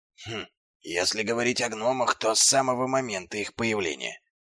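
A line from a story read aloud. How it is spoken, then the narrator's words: Whisper. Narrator (Russian): прошептал Дубинс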